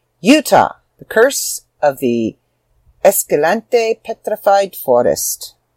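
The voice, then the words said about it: Put-on accent. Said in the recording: “why I did that with an accent”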